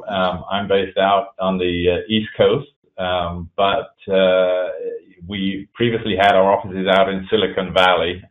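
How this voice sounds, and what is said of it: English accent. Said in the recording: “I was originally born in England, that you can probably hear from my accent”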